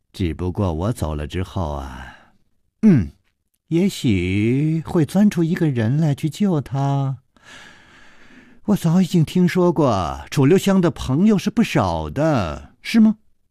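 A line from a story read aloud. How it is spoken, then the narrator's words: Child laughing. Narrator (Chinese): 那童子笑着说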